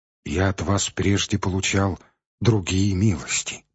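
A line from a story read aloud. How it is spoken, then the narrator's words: Muttering. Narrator (Russian): пробормотал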